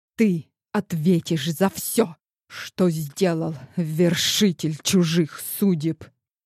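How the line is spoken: Angry hiss. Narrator (Russian): Зло прошипела иномерянка

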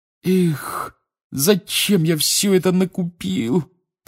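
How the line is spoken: Moaning. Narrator (Russian): простонал Рон

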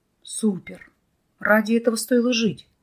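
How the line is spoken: Breathless exclamation. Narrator (Russian): выдохнул Вадим

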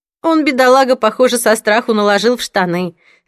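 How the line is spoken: Laughing. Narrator (Russian): рассмеялась Донна

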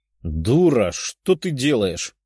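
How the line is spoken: Demon's growl. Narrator (Russian): рыкнул демон

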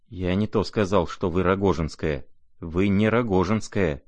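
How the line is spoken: Trembling voice. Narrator (Russian): дрожащим голосом выговорил князь

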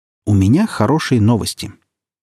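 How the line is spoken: Cheerful announcement. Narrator (Russian): барабанщик весело сказал

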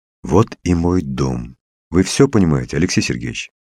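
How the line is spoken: Plain. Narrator (Russian): спросил Коля

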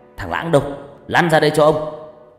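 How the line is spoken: Interrupting shout. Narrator (Vietnamese): tiếng quát cắt ngang

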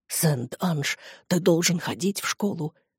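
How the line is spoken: Whisper. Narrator (Russian): прошептал

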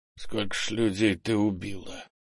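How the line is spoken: Hoarse question. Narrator (Russian): хрипло спросил Крис

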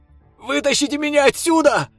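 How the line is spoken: Frightened yell. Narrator (Russian): Испуганно заорал угодивший в ловушку друг

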